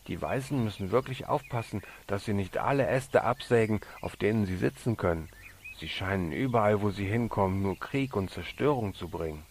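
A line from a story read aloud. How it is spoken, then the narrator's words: Laughing, then serious. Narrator (German): lachte er, und dann sagte er ernst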